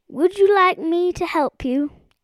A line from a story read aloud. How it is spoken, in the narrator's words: felt rather nervous and hastily said